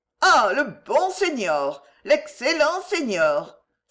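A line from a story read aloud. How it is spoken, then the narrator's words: Emphatic exclamation. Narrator (French): s'écria-t-elle en appuyant sur ses mots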